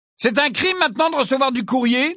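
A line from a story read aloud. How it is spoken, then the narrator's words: Loud question. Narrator (French): demanda Fred d'une voix forte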